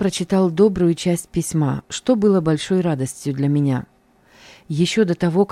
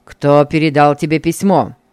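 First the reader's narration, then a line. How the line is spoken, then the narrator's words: Mocking question. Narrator (Russian): как-то насмешливо спросил Бугаев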